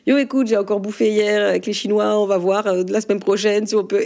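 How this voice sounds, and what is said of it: Put-on Alsatian accent. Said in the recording (French): “l'accent alsacien ... est-ce que vous le jouez avec plaisir ? ... Ah oui ... mais qui parlons que alsacien”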